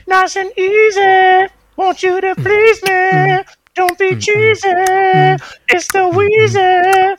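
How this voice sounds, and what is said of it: Singing in falsetto. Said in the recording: “that's a bit of the falsetto I've been working on in my spare time.”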